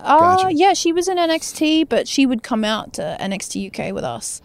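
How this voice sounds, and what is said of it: New Zealand accent. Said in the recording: “You still got the New Zealand accent, the Kiwi accent. ... You can hear it.”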